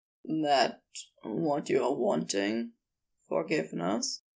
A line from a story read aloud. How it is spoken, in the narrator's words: After a beat, he said tenderly